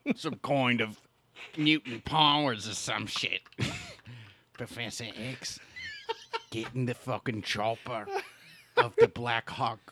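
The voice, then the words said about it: Imitates Wolverine character voice. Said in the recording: “love your Wolverine impression”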